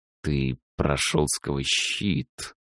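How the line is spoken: Mage hissing. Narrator (Russian): прошипел маг

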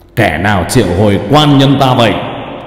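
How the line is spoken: Booming thunderous voice. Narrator (Vietnamese): Thân xác của Cao Biển nói giọng oang oang như sấm nổ vậy

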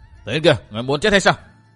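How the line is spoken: Loud scolding shout. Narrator (Vietnamese): Châu Bưu quát to lên mắng chàng

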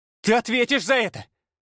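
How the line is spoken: Shouted after. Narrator (Russian): крикнула она мне вслед

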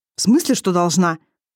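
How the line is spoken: Growl. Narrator (Russian): рыкнул Исор

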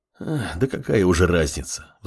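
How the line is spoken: Sigh. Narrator (Russian): вздохнула Кимура

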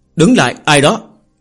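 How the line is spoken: Loud questioning. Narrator (Vietnamese): lớn tiếng dò hỏi

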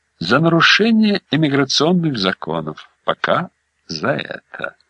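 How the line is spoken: Reassuring. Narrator (Russian): обнадежил Каноли

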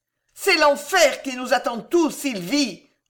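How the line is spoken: Roaring. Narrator (French): rugit Catherine

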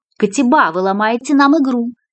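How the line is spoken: Shouting after someone. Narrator (Russian): крикнула ей вслед Кристина

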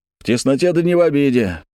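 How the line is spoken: Cheerful shout. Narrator (Russian): весело крикнул кто-то из вольных

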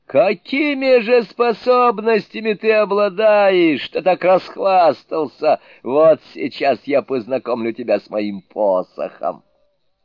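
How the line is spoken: Furious shout. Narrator (Russian): Яростно заскрежетав зубами, он заорал

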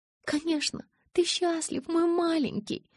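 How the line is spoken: Cooing. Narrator (Russian): заворковала

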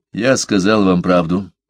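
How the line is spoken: Dry reply. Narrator (Russian): сухо ответил Парсел

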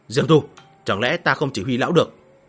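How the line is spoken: Cold. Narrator (Vietnamese): Miêu Nghị lạnh lùng

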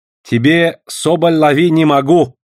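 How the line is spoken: Loud, sarcastic. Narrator (Russian): язвительно и громко заявил китаец

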